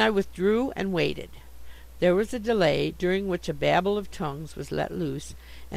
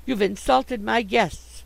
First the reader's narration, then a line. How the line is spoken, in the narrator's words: she cried